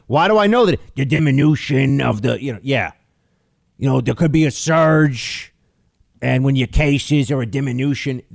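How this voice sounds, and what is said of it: Imitates another person's voice. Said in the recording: “my impersonation of him”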